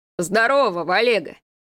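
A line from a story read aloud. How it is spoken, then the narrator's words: Deep bass voice. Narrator (Russian): пробасил вошедший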